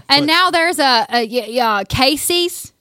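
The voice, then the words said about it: Put-on country accent. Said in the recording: “the country accent”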